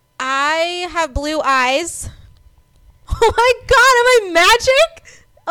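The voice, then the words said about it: Yelling. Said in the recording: “I'm yelling”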